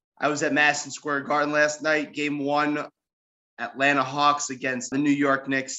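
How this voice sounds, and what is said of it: Hoarse voice. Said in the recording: “if you could probably hear it in my voice, I'm a little hoarse.”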